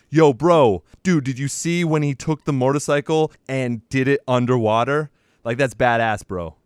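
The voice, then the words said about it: Dude-bro movie fan voice. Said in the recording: “Great impression”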